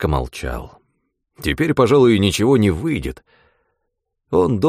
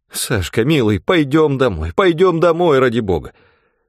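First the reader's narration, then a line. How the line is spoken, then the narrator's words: Pleading. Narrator (Russian): Взмолилась Вера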